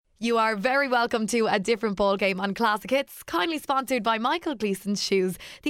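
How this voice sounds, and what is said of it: Hoarse voice. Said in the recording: “this is the first week that you're hoarse. I think you've celebrated a small bit more than me”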